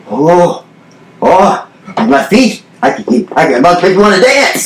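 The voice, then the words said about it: Heavy thick Puerto Rican accent. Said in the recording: “he's doing a heavy, thick accent. ... He was Spanish. He was from, I believe he was from Puerto Rico. ... Maybe Ricky Ricardo kind of thing”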